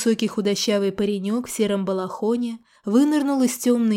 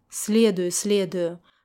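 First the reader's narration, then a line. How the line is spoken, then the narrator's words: Muttered under breath. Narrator (Russian): пробурчал я себе под нос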